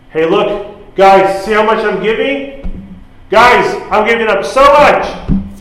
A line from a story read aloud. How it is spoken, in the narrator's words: the rich men who give to the poor, who loudly pronounce